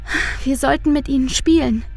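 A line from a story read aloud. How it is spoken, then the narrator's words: Sighing. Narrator (German): seufzt Luise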